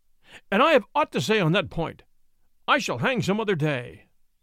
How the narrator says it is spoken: cried the baron

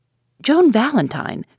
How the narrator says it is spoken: cried Judson

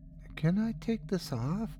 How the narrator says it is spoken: she asked in that same meek voice

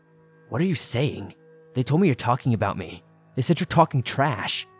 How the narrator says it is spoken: all of a sudden she looks at me so angrily and states

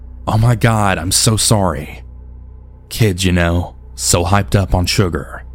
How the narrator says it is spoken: the mother said

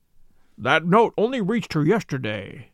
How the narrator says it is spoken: said Holmes

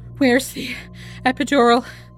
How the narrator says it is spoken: Gabriella breathed, too exhausted to speak up

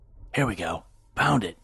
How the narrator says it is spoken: he'd whisper to Ian

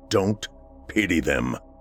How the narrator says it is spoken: he said gruffly

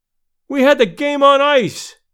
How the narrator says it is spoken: one cried

